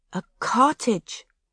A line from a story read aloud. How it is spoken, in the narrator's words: she sighed